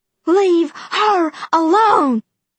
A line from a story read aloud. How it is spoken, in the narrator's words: yelling